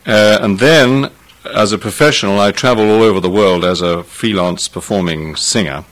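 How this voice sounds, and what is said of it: British received pronunciation accent. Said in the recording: “my accent probably represents what used to be called received pronunciation, which the BBC classed as that, and it's a kind of an accent fairly typical of somebody who's had a boarding school”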